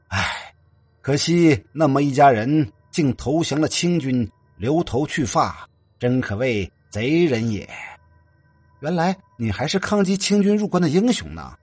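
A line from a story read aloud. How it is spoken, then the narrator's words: Excited. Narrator (Chinese): 唐寻……更是激动不已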